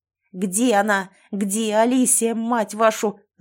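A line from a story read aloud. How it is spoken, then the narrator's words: Yelling. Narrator (Russian): заорал на них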